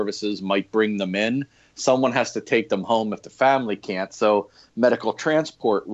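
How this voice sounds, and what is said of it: Usual voice. Nothing is said of it.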